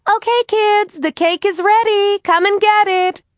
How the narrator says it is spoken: Hennessy called out

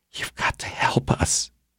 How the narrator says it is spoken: the woman whispered

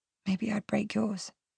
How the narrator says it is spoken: I whisper back

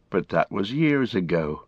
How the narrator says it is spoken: he sighed

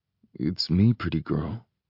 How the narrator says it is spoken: I murmur

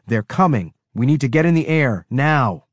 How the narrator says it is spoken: yelled over the comm

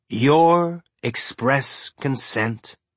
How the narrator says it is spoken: Murtry said, speaking slowly like he was tasting the words

